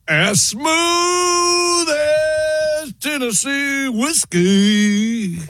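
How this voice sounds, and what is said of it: Singing with a put-on accent. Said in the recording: “Wow, got the accent.”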